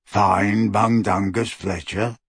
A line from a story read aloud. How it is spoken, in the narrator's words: he croaked